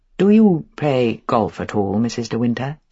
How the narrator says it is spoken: said Mr

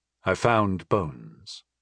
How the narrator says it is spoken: he said in a hollow voice

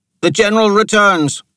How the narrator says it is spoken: shouted

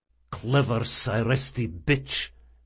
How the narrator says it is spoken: muttered Rodanoff as he crawled back to his feet after the collision

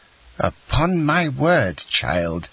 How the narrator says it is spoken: exclaimed the angry Marquise

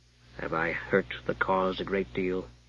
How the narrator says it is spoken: Limbeck asked gently

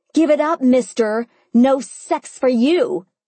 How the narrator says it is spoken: I yelled at the wall

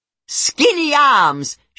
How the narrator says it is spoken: she yells at him

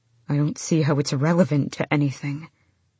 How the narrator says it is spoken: Ren said tightly

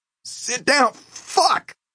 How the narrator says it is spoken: Harley screamed

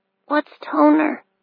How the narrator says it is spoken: she mumbled

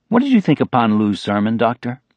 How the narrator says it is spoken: The question was asked in a quite ordinary tone

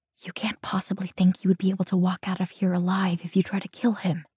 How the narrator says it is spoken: I whisper to Jin

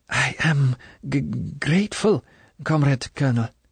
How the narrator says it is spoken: She stammered in a weak voice

